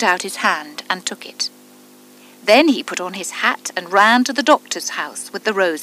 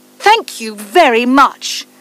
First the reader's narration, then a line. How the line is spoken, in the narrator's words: said the student angrily